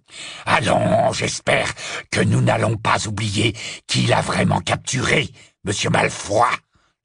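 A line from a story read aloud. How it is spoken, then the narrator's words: Menacing interruption. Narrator (French): l'interrompit Greyback d'un ton menaçant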